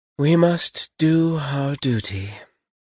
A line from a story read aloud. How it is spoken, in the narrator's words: she said with a deep sigh